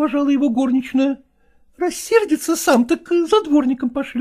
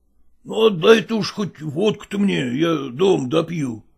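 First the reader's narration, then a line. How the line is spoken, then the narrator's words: Mumbling. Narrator (Russian): пробормотал он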